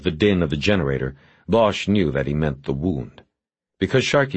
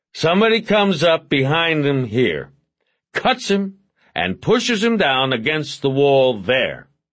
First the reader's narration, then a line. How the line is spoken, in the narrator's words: Porter said loudly to no one in particular